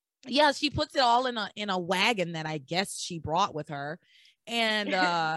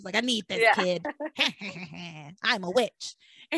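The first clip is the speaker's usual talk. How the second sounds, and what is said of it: Bad imitation of another person's voice. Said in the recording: “my bad Tabitha impression.”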